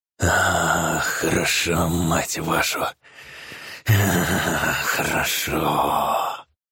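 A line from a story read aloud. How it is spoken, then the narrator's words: Moaning. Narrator (Russian): Стонал он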